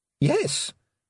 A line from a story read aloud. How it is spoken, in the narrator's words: said Tiffany, grinning happily